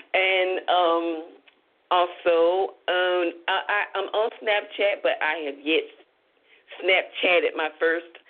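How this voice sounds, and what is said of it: Deep Southern US accent. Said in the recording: “that deep southern accent kicks in”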